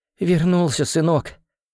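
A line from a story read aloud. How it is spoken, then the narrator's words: Sobbing. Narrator (Russian): всхлипнула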